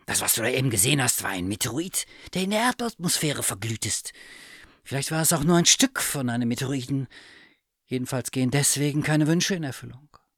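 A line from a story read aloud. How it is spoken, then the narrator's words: Cat hissing. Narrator (German): fauchte die Katze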